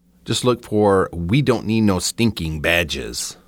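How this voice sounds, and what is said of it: Bad put-on accent. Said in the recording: “That was a really bad accent”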